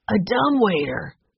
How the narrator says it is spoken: Henry exclaimed

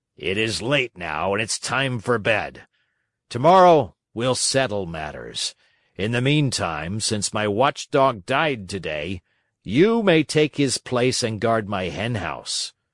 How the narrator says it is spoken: said to him roughly

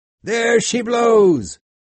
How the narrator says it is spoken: Tashtego, who was keeping watch, suddenly cried out

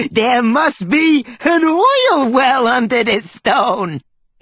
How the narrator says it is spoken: he giggled

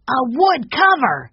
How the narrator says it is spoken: shouted Benny

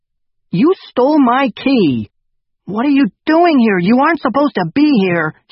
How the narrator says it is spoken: Hugo yelled

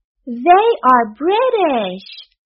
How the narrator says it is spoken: cried Joseph

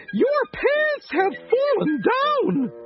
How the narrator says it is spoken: the lady screamed

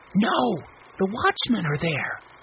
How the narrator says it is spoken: Mike whispered

